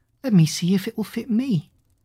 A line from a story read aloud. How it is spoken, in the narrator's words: Cinderella said laughingly